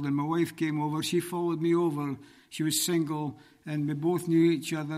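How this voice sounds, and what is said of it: Scottish accent. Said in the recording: “As you can tell by my accent, I'm not from these parts. ... I'm from originally from Scotland”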